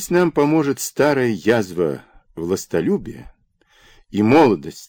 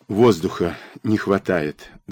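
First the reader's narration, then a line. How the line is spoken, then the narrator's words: Sighed. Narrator (Russian): вздохнул Бараболя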